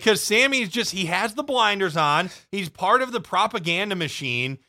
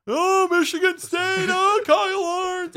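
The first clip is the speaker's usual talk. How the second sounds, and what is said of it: Imitates another person's voice. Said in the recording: “Is that your Dick Vitale impersonation?”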